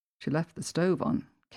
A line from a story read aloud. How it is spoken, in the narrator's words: Case comments softly, not disturbing the overriding quiet of the residence